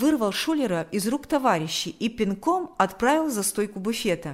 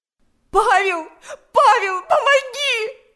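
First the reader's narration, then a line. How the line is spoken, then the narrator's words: Shouted plea. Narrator (Russian): закричала Галя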